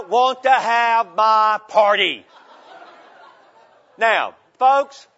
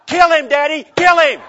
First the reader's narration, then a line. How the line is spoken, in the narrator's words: the little boy began to scream and cry